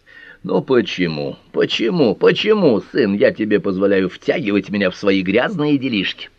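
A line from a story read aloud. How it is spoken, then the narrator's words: Grumbling. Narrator (Russian): ворчал он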